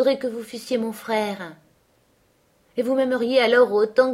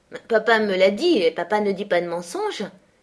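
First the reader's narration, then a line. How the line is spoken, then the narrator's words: Quick reply. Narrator (French): répondit-elle vivement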